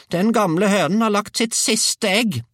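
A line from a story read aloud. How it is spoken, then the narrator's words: Shouted. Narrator (Norwegian): ropte bestemor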